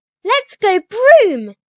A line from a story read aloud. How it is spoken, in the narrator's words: She squeals